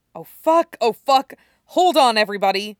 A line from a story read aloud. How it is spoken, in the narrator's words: he blurts out